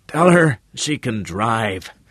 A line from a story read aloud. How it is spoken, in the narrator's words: the old man gasped